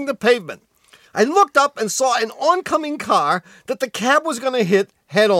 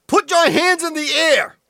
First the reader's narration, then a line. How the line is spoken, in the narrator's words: he yelled